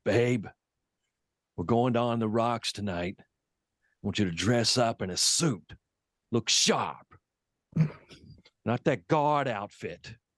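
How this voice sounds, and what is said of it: Imitates another person's voice. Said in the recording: “That was what she sounded like? ... She sounds just like that. ... that's my impersonation of it.”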